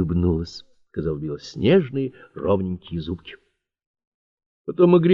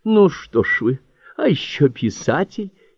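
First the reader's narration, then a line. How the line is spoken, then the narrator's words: Amused giggle. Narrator (Russian): хихикнула, заметив его растерянность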